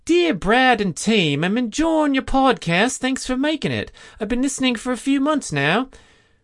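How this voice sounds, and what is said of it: Put-on Australian accent. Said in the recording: “How's that for an Aussie accent? I think that was spot on.”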